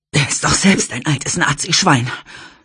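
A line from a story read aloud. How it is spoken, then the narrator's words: Panting. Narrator (German): keuchte Greta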